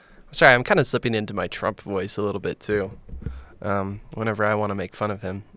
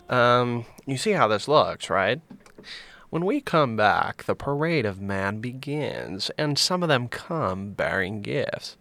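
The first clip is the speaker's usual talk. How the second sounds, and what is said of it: Imitates another person's voice. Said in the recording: “do my Chris Hansen voice”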